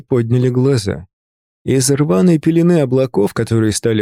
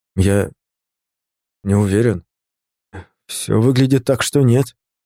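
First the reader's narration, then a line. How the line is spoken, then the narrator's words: Forced out in fear. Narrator (Russian): выдавил, чувствуя, как ледяная волна прокатывается по спине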